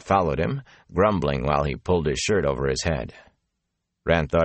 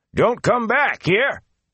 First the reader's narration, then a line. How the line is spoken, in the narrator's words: he had shouted after them